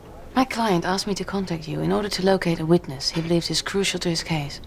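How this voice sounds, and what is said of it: Speaks with a noticeable accent. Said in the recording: “Where's that accent from?”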